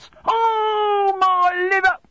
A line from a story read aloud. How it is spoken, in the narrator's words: cried the old man